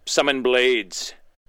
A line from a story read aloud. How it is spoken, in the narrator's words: shouts